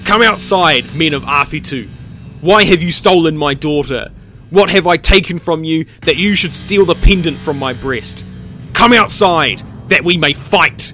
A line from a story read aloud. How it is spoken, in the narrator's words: Puhihuia's mother called out loudly